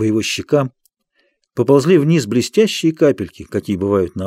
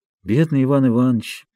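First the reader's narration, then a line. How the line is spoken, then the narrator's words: Sad sighing speech. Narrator (Russian): говорил хозяин, печально вздыхая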